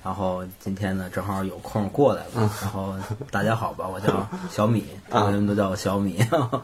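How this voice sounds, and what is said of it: Strong Beijing accent. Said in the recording (Chinese): “听口音能听出来啊，这个京腔挺浓的”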